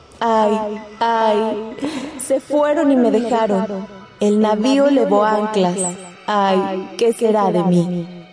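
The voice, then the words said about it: Ghostly, plaintive wailing voice. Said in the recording (Spanish): “decía con voz de ultratumba, quejándose lastimosamente”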